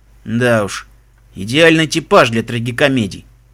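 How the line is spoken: Grumbling. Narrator (Russian): проворчал Себастьян

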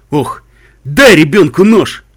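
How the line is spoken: Grumbling stallion. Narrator (Russian): проворчал жеребец

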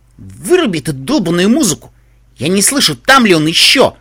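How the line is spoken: Sharp irritated shout. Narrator (Russian): прикрикнул юная грифина на Пупи

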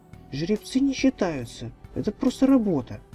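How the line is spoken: Offended. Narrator (Russian): обиженно ответила Ренти

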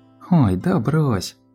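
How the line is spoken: Laughing sorceress. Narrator (Russian): посмеялась волшебница

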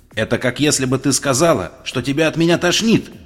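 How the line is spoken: Barked. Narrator (Russian): рявкнула Твайлайт

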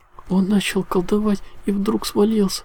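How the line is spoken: Sobbing. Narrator (Russian): всхлипывала единорожка

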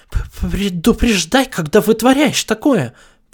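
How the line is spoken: Breathless babble. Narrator (Russian): пролепетала Бон-Бон, ловя ртом воздух

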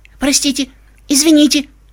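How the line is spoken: Thin squeaky voice. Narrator (Russian): тоненьким голосом пищала она

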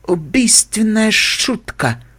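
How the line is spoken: Weak moan. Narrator (Russian): слабо простонала

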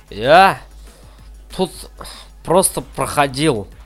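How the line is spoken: Muttering. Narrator (Russian): забормотал Карви

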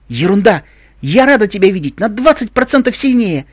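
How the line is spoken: Exclaiming. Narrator (Russian): воскликнула пегаска

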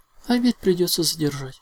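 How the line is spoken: Sigh. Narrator (Russian): вздохнула

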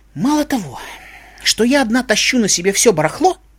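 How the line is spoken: Indignant young unicorn. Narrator (Russian): возмущенно сказала единорожка

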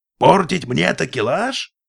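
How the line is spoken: Roared, captain. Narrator (Russian): взревел капитан

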